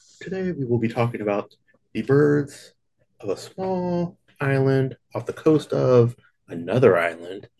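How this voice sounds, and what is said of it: Soothing NPR radio host voice. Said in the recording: “NPR voice ... That's your dream voice ... that's exactly how he sounded all the time”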